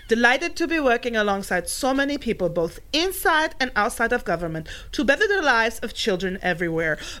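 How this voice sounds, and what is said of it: Melania Trump accent impression. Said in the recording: “Oh, let me do the accent.”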